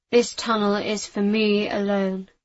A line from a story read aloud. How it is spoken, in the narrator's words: he said, his voice muffled in the tight space